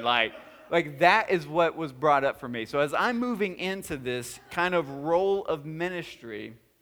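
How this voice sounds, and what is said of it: Speaker's own drawling accent. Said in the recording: “my accent or my drawl”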